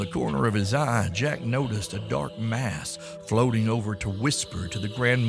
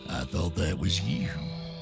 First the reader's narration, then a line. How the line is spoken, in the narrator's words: old Green Eyes whispered